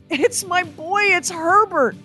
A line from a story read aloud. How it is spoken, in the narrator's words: cried, struggling